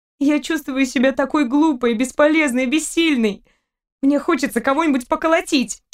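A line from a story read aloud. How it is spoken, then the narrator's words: Curt, flung. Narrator (Russian): Кинула ему девушка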